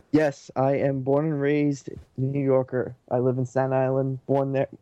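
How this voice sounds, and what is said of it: New York accent. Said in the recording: “I think I can tell by the accent, you're from the New York area?”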